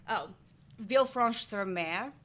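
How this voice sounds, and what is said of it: Put-on French accent. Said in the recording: “My lovely French accent”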